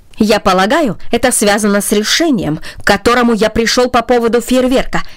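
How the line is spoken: Sharp. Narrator (Russian): резко сказал он

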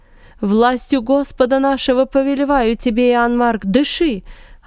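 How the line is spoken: Yelling. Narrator (Russian): орал Варнава

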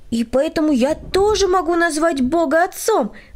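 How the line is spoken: Exclamation. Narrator (Russian): воскликнул Владик

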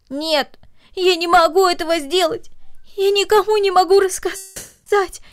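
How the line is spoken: Sobbing girl. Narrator (Russian): произнесла девочка между всхлипываниями

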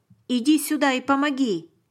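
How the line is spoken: Shout, soldier. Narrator (Russian): крикнул один из солдат

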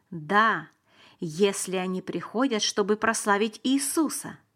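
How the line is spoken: Plain. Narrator (Russian): сказал Лазарь

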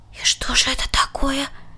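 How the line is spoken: Inspired whispered question. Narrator (Russian): шепотом спросил Ханс, вдохновленный преданностью своего брата

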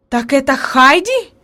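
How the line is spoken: Exclaiming. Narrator (Russian): воскликнула наконец она

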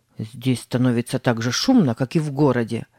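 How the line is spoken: Grumbling. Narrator (Russian): проворчал Тим

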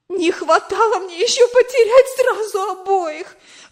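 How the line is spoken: Exclaimed. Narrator (Russian): воскликнула она

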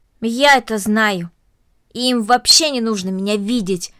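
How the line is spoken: Angry. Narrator (Russian): сердито произнесла Корнели

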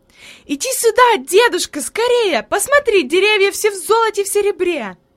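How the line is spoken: Joyful shout. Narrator (Russian): Хайди запрыгала от радости и закричала

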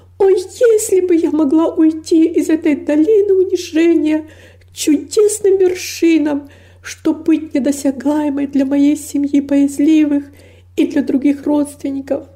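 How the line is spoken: Exclaiming with inexpressible longing. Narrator (Russian): воскликнула с невыразимой тоской

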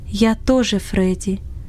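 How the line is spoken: Throat-clearing, then undertone. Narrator (Russian): откашлялся и сказал вполголоса

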